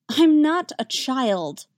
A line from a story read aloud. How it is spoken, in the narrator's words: Damien protests, but it lacks his usual vehemence